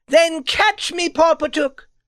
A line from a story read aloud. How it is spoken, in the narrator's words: she cried